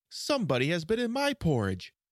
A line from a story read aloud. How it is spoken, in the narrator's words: said the middle bear in his middle voice